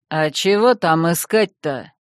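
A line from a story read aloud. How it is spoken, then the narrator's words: Deep bass reply. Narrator (Russian): низким басом отозвался Иванушка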